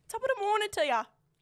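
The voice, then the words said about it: Put-on Irish accent. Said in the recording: “Irish? ... Yeah.”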